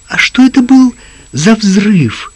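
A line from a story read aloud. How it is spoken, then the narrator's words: Frightened question. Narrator (Russian): испуганно спросила Лизи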